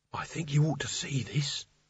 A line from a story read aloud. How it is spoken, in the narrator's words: she hissed